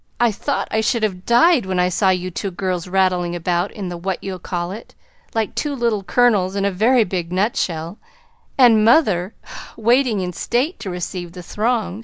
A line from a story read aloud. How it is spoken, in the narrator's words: sighed Joe, quite spent with laughter